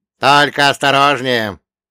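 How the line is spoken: Old man calling after. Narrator (Russian): крикнул мне вдогонку старик

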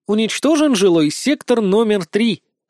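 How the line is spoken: Cheerful distant female voice. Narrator (Russian): радостно сообщил женский голос издалека

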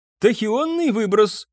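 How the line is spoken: Exclaimed. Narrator (Russian): воскликнул Ромбус

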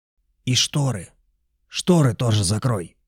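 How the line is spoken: Man hissing from corner. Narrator (Russian): прошипел дядька из угла

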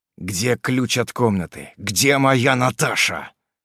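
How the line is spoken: Angry hiss. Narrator (Russian): злобно прошипел

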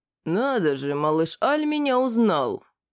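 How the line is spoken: Growled with feigned surprise. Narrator (Russian): сделанным удивлением рыкнул орк

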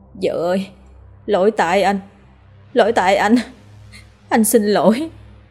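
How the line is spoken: Muffled sobbing mutter. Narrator (Vietnamese): Chú ôm mặt khóc nức nở, miệng không ngừng lẩm bẩm

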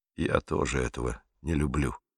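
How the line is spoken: Father's mumble. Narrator (Russian): пробормотал папа

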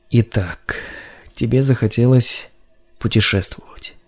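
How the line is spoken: Muttering through teeth. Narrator (Russian): бормотал он сквозь зубы

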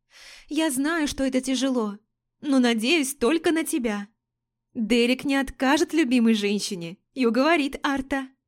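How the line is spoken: Exclaimed, young woman. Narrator (Russian): Воскликнула девушка

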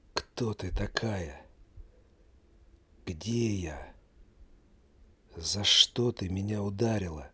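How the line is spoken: Weak whisper. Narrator (Russian): слабым голосом прошептал он

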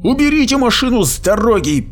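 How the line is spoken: Shouting from turret. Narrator (Russian): крикнул банник из командирской башенки

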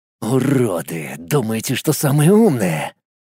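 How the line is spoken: Hoarse, after long pause. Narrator (Russian): После долгой паузы прохрипел он

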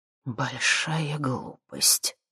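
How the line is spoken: Displeased grumble. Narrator (Russian): недовольно буркнул Михалыч

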